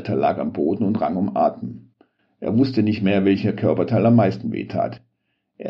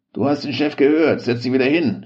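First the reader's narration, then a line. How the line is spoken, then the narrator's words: Gruff snapping. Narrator (German): schnauzte ihn Branko an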